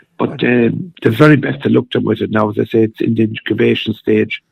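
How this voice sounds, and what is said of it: Slightly hoarse voice. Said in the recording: “my voice is a little bit hoarse at the moment”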